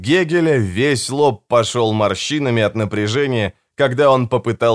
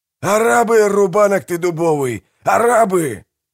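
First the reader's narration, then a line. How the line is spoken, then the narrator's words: Yelling. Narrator (Russian): завопил Манфред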